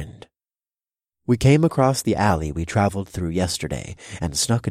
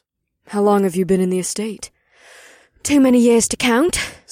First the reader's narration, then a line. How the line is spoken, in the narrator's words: Sevelia sighed deeply